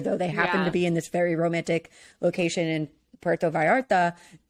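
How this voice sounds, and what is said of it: Good Spanish accent on place name. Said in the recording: “You had such a good Spanish accent. ... Those double L's.”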